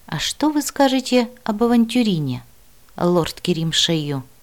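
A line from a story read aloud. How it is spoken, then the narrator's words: Quiet question. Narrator (Russian): тихо спросил Мила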